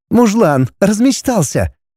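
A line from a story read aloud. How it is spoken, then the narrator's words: Laughing. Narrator (Russian): Рассмеялась она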